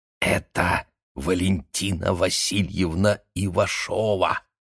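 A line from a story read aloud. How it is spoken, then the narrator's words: Loud whisper. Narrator (Russian): громким шепотом сказал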